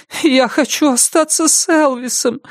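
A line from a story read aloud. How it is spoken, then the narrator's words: Whimpering. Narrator (Russian): захныкала она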